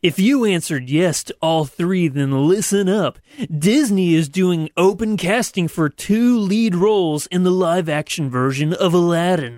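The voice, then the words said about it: Announcer-style radio voice. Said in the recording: “put on my radio voice for this one ... I'm going to attempt a radio voice.”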